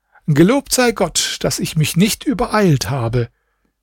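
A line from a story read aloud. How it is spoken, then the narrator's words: Calling out. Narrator (German): rief er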